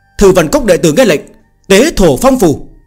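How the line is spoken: Cold bark. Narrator (Vietnamese): Bì Quân Tử quát lạnh

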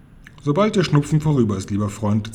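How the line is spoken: Plain. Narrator (German): sagte Wallenstein

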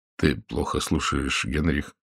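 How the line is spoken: Quiet. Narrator (Russian): тихо сказал Рой

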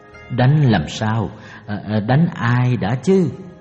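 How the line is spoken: Stammering. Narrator (Vietnamese): Senaka lắp bắp các chữ đầu

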